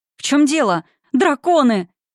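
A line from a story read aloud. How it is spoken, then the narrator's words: Terrified shriek. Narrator (Russian): взвизгнула она с ужасом в голосе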